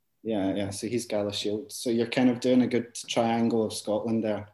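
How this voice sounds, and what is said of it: Scottish Glasgow accent. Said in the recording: “probably your listeners could tell by the accent, so I am from Scotland, from Glasgow”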